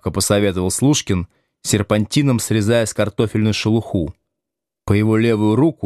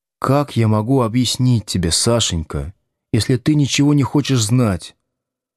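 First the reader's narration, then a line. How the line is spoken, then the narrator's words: Sigh. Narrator (Russian): вздохнул Слушкин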